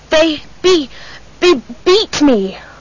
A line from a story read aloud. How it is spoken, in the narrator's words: I gasped